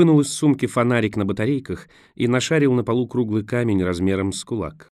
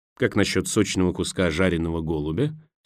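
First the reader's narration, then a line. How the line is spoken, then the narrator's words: Plain. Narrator (Russian): спросил он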